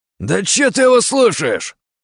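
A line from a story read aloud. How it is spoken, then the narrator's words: Barking. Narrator (Russian): рявкнул один из них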